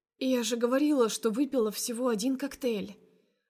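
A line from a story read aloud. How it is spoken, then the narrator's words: Hoarse, carefree voice. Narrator (Russian): охрипшим, но беспечным голосом выдаю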